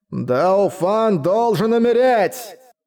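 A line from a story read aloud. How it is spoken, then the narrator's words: Roaring. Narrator (Russian): проревел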